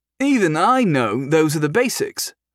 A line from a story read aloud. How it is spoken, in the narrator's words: someone called out